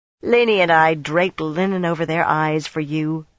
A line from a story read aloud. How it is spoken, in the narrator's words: Brianna sneered